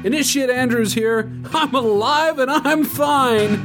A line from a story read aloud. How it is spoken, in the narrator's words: Jonathan shouted